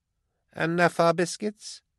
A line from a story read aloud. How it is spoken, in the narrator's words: cooed Beckwin